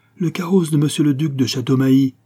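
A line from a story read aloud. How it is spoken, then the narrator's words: Footman shouting. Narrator (French): cria le laquais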